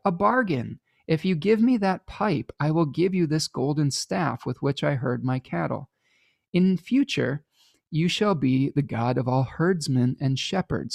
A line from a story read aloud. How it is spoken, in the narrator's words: Apollo, again delighted, cried